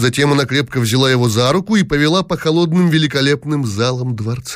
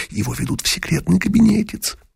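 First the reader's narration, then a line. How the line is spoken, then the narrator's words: Loud whisper. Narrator (Russian): раздался их громкий шепот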